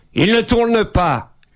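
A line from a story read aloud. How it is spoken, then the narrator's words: Shouted. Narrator (French): hurla-t-il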